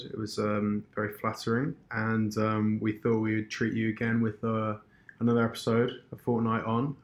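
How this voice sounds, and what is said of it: Weak, tired voice. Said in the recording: “my voice is a little weak this week”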